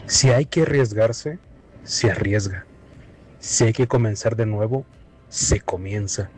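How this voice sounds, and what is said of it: Announcer-style voice. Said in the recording (Spanish): “qué bonita voz de locutor tienes”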